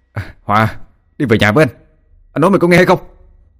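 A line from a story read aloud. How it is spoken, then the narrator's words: Angry shout. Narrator (Vietnamese): Anh Đăng bực mình quá quát lên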